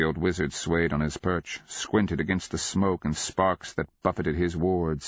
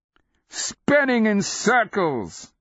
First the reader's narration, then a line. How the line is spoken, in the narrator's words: Cleric cried, laughing